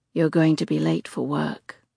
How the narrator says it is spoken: he says softly in my ear

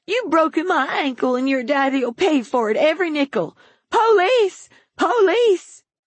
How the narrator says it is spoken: the old woman on the pavement shout

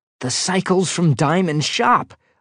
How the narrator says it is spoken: I exclaimed

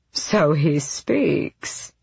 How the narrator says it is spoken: Aerobin purred

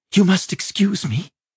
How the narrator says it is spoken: she said breathlessly

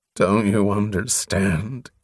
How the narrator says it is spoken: Covenant groaned, unable to silence the ache in his voice

